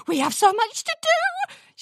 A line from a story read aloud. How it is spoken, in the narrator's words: squealed